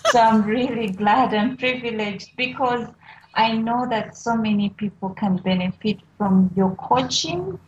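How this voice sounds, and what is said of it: Speaks with a noticeable accent. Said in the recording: “I love your accent, by the way, and I love the way you say my name”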